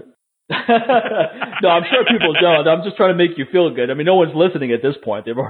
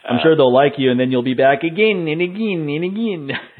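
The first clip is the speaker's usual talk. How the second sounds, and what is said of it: Weak imitation of Polish woman's accent. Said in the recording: “That's my bad Ioana Jędrzejczyk imitation there, Polish girl... I have a pretty good Polish imitation. That just wasn't.”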